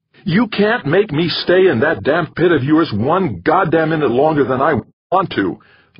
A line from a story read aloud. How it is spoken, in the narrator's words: Larkin yelled